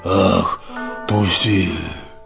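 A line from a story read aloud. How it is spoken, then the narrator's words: Hoarse wheeze. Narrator (Russian): прохрипел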